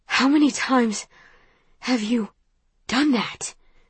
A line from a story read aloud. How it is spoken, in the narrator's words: He asks between breaths